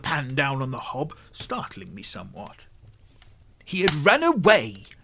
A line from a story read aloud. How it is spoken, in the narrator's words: she snapped with some asperity